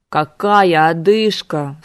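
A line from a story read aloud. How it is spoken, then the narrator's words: Exasperated howl. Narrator (Russian): взвыл он, не в силах это терпеть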